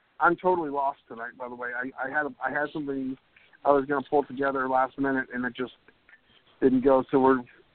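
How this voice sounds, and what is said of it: Hoarse, worn-out voice. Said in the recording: “my voice is just shot tonight”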